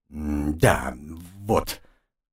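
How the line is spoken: Angry self-reproachful mumble. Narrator (Russian): промямлил я, злой на самого себя

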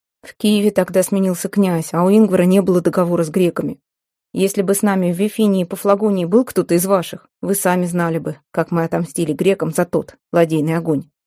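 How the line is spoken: Plain. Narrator (Russian): сказал Местина

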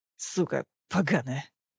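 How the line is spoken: Hissed through teeth. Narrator (Russian): процедил Белли

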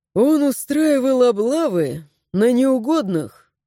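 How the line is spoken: Sigh. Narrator (Russian): вздохнул Рик

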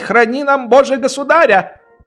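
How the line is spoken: Shouted. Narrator (Russian): крикнул оберфельдкурат

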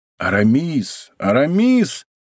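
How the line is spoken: Incredulous exclamation. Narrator (Russian): воскликнул Д'Артаньян с недоверием

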